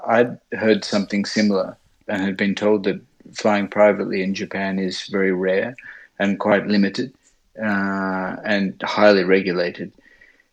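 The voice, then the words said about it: Australian accent. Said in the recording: “my my Australian accent”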